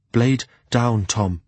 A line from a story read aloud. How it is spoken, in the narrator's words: he said, evenly